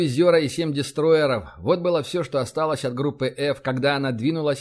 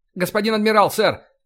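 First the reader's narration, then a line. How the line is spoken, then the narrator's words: Signalman's shout. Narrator (Russian): крикнул связист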